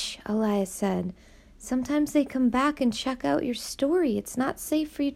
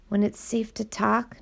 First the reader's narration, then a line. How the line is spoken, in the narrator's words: Nina said quietly